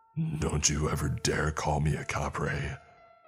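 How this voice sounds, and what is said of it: Deep shouting character voice. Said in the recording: “its deep voice shouted, the noise seemingly echoing all around us”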